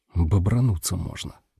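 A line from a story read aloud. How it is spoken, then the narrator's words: Whisper. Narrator (Russian): прошептал я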